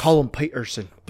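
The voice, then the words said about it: Put-on Scottish or Irish accent. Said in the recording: “I don't know if that was a Scottish or Irish accent, to be honest. ... It works with both.”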